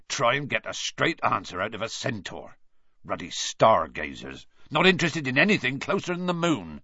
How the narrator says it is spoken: said Hagrid irritably

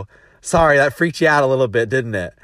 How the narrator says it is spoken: I kind of laughed

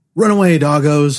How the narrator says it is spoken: shouted

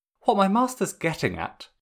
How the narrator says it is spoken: Kuzon cuts in smoothly

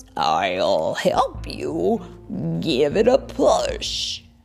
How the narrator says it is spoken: the frog ... croaks

